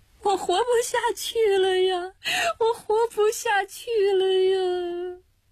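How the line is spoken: Loud sobbing. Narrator (Chinese): 娇峰看着字条就大哭起来，说

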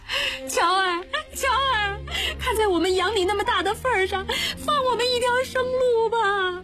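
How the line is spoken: Pleading, sobbing. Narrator (Chinese): 吴生老婆边磕头边哭着说

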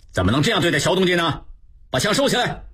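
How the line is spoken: Angry. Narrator (Chinese): 吴炳仁怒视众骑兵

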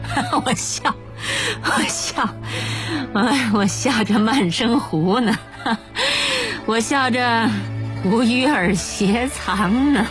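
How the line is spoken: Laughing heartily. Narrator (Chinese): 他哈哈哈的大笑起来，边笑边说

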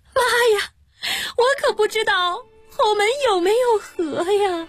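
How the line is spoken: Bursting into tears. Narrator (Chinese): 新娘子哇的一下哭出了声

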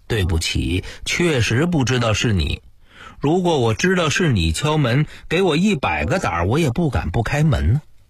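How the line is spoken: Smiling, apologetic explaining. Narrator (Chinese): 我尽量给他献上一副笑脸，不停地给他解释

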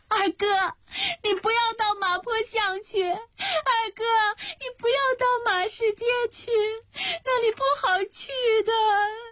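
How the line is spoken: Crying shout. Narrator (Chinese): 迎霜 跑着跑着哭了起来 喊

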